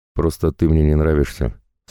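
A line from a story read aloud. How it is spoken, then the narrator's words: Calm reply. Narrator (Russian): спокойно ответил я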